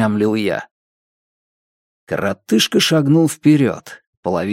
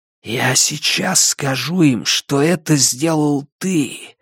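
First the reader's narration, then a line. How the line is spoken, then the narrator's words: Feverish whisper. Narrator (Russian): лихорадочным шепотом проговорил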